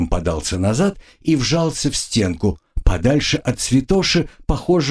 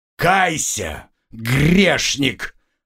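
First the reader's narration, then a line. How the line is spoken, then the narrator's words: Growl. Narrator (Russian): рыкнул он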